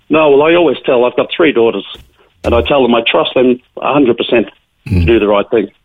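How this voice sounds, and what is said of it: Australian Melbourne accent. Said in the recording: “your accent tells me ... Melbourne is where you come from originally”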